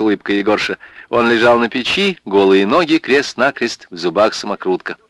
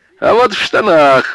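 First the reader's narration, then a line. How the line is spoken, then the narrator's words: Laughing. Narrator (Russian): рассмеялся Егорша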